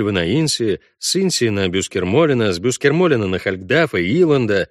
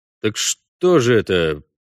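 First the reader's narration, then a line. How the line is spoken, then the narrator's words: Drawn-out drawl. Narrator (Russian): протянул Парт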